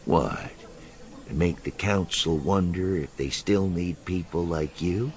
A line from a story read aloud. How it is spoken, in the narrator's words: Simacro asked blandly